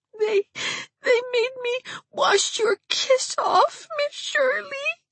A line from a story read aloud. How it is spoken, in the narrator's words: she sobbed